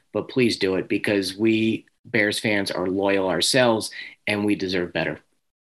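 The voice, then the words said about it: Soft, quiet fatherly voice. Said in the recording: “your voice got like really mute, like soft there ... I went into my dad voice”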